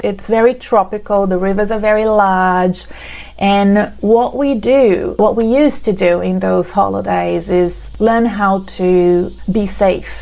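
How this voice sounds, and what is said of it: Brazilian accent. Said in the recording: “You can see from my accent that I'm not from Australia. I'm originally from Brazil.”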